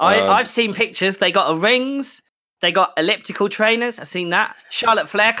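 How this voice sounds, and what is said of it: Usual voice. Nothing is said of it.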